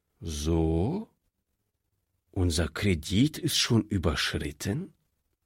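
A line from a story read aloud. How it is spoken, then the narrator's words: Surprisingly calm question. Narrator (German): fragte der Direktor, und er wunderte sich selbst, wie ruhig er die Frage stellen konnte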